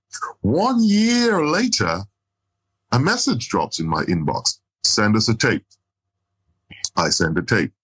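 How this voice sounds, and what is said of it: Jamaican Caribbean accent. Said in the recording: “I am a Caribbean. I'm from Jamaica. I have a Caribbean accent.”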